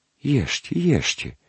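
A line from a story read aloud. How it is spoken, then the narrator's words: Whisper. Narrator (Russian): шептала няня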